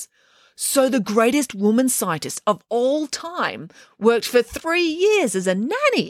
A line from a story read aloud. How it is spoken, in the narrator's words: exclaimed Derek